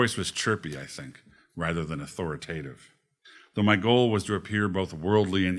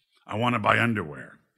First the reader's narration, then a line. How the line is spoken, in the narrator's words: he growled